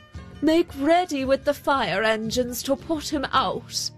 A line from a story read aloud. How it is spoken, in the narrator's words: he called out